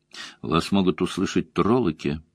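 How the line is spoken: Plain. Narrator (Russian): сказал он ей

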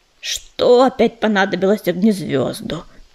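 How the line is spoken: Grumbling. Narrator (Russian): проворчал Дым

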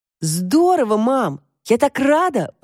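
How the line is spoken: Joyful exclamation. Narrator (Russian): воскликнула Тошка

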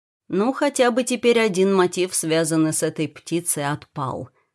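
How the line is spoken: Plain. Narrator (Russian): сказал он напоследок

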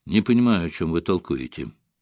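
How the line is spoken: Muttered. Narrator (Russian): пробормотал Фокс

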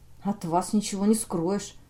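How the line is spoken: Muttered. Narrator (Russian): пробормотал я

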